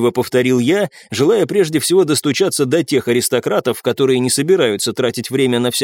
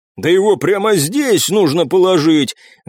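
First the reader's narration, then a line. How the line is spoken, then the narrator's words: Roaring big man. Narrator (Russian): взревел здоровяк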